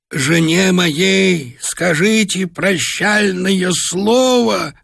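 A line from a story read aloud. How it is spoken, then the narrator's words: Hoarse rasping. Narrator (Russian): хрипел он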